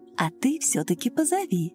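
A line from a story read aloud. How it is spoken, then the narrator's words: Soft motherly repetition. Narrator (Russian): мягко так по-матерински повторила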